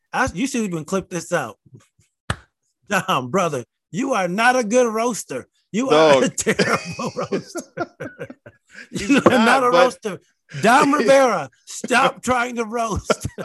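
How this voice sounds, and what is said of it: Southern-sounding American accent. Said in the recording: “I don't even know where his accent is from. His accent is like Southern, but he's from Jersey.”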